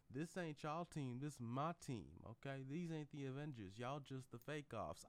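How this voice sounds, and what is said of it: Partial country accent, old man. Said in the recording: “I'm using a partially country accent”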